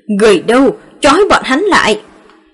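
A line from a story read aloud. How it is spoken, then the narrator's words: Grief-stricken loud shout. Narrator (Vietnamese): cất tiếng đau buồn, hét lớn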